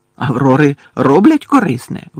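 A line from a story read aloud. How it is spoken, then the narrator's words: Exclaimed. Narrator (Ukrainian): вигукнув Гаррі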